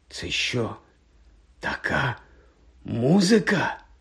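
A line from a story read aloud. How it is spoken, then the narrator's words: Whispered. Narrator (Ukrainian): Прошепотів Рон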